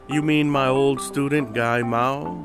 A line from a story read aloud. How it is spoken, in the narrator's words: the master said